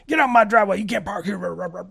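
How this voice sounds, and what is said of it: Put-on grumpy elderly man voice. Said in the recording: “I don't know why my accent changes when I do that... the change from old to elderly is a significant accent change”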